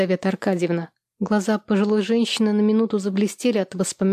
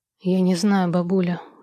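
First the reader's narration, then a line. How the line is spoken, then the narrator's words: Sighing. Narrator (Russian): вздохнул Владислав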